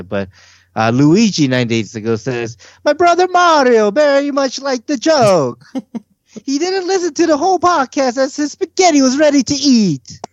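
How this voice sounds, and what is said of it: Clumsy put-on Italian accent. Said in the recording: “You gotta read this next one in an accent... I'm terrible at this accent... That sounds like a William Anthony Italian version.”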